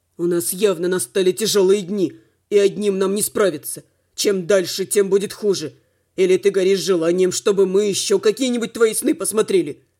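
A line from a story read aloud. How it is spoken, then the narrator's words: Growled. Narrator (Russian): Рыкнул Слава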